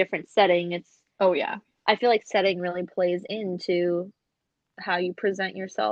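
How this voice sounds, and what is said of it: Usual voice. Nothing is said of it.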